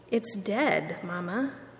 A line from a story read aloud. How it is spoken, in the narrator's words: he said to her quietly